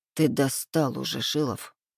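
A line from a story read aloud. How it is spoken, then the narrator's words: Mumbled. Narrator (Russian): Пробормотал я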